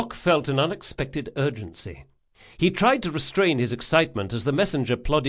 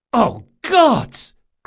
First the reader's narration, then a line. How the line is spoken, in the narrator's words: cried Locke